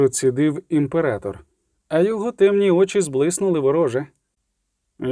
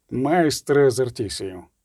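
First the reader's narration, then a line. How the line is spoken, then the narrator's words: Interrupting, courteous, gentle emperor. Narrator (Ukrainian): урвав імператор несподівано гречно і лагідно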